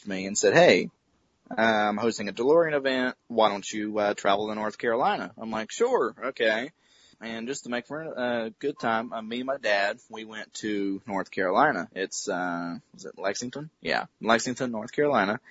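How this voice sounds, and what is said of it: Mild Southern American accent. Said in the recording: “You could probably tell by the southern accent a little bit.”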